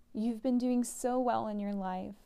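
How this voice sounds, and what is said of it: Emotional, choked-up voice. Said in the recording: “Sorry, I'm getting emotional”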